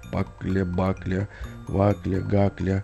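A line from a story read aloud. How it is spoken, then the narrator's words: Quiet muttering to himself. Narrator (Russian): потихоньку бормотал про себя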